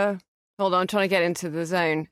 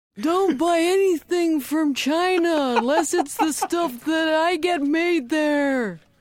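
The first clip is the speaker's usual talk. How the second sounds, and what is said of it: Imitates another person's voice. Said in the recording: “That's Emo Phillips as Donald Trump ... do an impression on demand ... a Donald Trump impression”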